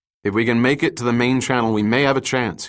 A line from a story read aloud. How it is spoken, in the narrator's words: he said